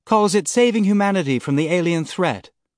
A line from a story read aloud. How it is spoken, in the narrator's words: Sam said sweetly